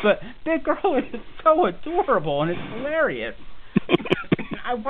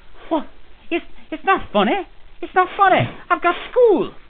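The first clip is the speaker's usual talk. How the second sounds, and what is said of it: Poor imitation Scottish accent. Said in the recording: “that's a terrible Scottish accent I'm doing”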